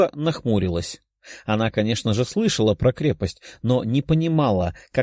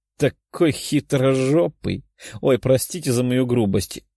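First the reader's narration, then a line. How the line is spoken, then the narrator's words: Giggling. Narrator (Russian): хихикнула она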